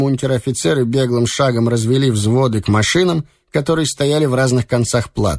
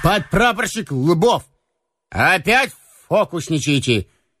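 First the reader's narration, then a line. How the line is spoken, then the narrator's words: Mock-stern call. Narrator (Russian): притворно строго окликнул его Слива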